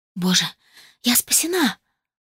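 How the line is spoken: Hoarse rasp. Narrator (Russian): прохрипела

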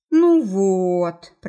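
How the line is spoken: Drawn-out drawl. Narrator (Russian): протянул

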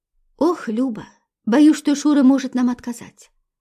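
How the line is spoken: Sighing. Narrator (Russian): вздохнула Анфиса

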